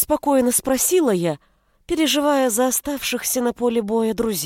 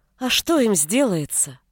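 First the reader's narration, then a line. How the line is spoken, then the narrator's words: Tired, smiling female commander. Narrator (Russian): Устало улыбнулась сотница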